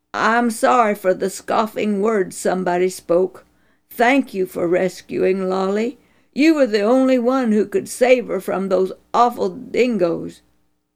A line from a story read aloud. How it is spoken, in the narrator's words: With deep thanks, the father exclaimed